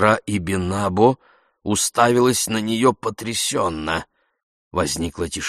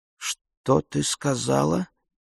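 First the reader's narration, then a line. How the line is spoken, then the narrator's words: Quiet asking again. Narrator (Russian): переспросила сестра Ибинабо тихонько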